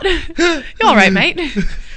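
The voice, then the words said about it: Bad English-Australian mixed accent. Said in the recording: “you started to talk like him ... my bad cross between an English and an Australian accent”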